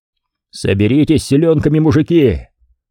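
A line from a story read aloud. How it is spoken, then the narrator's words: Loud cheerful shout. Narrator (Russian): Громко и весело крикнул Дмитрий волынцам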